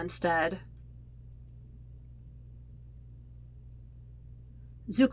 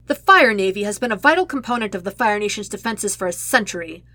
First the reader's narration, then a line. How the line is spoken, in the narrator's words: Commander Jaoku snaps